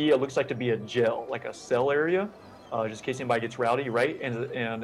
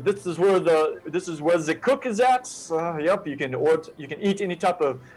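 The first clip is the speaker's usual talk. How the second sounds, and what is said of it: Put-on German accent. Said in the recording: “I kind of talked a little German accent there.”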